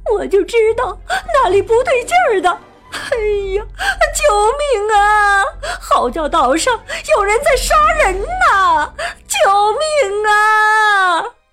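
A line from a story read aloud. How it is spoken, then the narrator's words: Terrified, crying, muffled. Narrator (Chinese): 鼹鼠悠悠吓得藏在了毯子底下，哭着说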